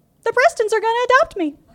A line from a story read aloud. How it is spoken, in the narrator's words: She loudly proclaimed